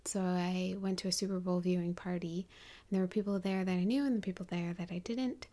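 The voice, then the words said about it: American accent. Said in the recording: “if you can't tell by my accent, I'm American”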